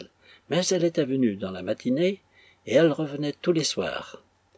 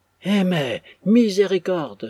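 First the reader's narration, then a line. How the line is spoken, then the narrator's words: Exclaiming. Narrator (French): s'écria M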